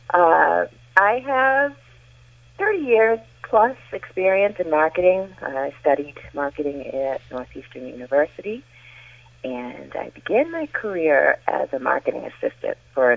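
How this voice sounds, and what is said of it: Massachusetts North Shore accent. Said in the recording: “I am a lifelong Massachusetts North Shore resident, so I'm sure my accent will come through”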